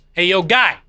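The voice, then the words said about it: Gruff street hot dog vendor voice. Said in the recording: “Hot dog vendor... did the voice”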